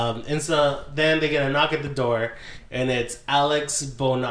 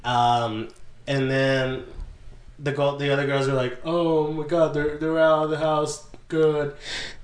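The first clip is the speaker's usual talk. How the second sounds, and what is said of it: Impression of Dorothy. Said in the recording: “That's my Dorothy impression.”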